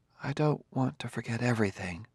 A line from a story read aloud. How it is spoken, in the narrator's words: said Gladiah softly